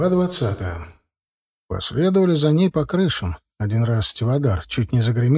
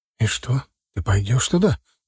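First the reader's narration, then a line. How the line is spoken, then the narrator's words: Frightened question. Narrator (Russian): испуганно спросил Корнел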